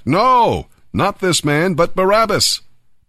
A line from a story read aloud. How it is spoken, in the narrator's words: they shouted back